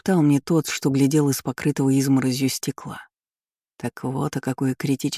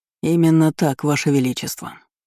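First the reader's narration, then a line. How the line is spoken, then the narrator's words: Dry reply. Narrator (Russian): ответил он сухо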